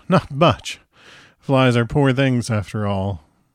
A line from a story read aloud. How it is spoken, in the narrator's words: With a laugh, he replied